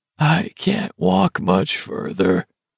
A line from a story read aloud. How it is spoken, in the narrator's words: Olson croaked